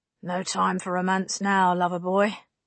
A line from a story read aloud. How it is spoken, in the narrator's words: she said dryly